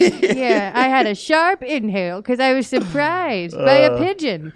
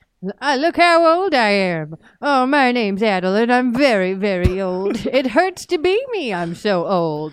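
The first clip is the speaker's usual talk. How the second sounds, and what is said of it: Imitates an old man's voice. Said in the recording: “This is my impression of Old Man Puzzies”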